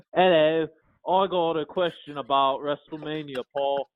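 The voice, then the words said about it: Poorly imitated accent. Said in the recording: “I'm gonna try to do your accent and I'm gonna butcher it”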